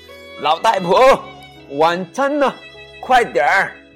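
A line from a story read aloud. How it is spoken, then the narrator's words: Loud shout. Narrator (Chinese): 朱先生做完很重要的工作回到家，总是大声喊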